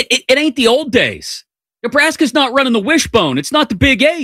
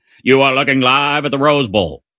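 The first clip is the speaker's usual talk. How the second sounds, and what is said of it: Bad Keith Jackson impression. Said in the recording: “terrible Keith Jackson impression”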